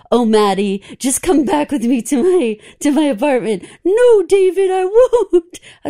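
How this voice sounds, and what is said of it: Impression of Moonlighting characters. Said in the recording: “my full Moonlighting impression”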